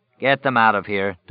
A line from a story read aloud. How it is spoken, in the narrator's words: Dorgan said evenly